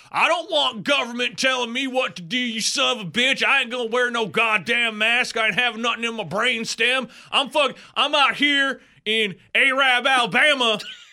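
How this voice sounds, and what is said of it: Mock Southern Alabama accent. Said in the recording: “that accent is like, it's the same way up north, too”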